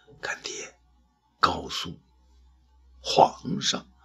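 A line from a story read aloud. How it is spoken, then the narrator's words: Weak faint voice. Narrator (Chinese): 声音微弱地说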